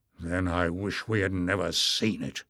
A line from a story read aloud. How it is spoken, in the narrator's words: snarled Bauder